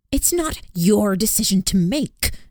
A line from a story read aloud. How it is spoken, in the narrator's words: Ibbet snapped at me